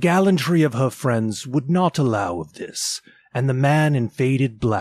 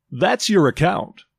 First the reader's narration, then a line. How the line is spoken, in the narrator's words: said Joe